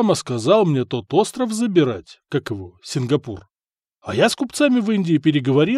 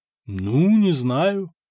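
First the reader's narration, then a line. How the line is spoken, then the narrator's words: Drawn-out hesitant speech. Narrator (Russian): протянул Надир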